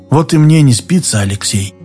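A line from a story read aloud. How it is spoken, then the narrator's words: Sad. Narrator (Russian): проговорил Дауга печально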